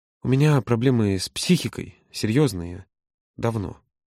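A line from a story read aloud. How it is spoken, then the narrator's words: Strained, trembling voice. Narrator (Russian): с трудом собравшись, произнес дрожащим голосом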